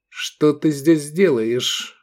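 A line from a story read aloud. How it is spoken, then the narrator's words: Girl's cold question. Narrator (Russian): холодно спросила девушка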